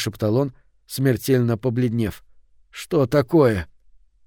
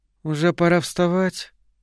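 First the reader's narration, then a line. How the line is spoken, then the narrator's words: Sleepy. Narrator (Russian): она сказала сонно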